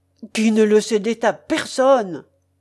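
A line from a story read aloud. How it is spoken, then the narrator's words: Impatient exclamation, pilgrim. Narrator (French): s'écria le pèlerin, avec une impatience visible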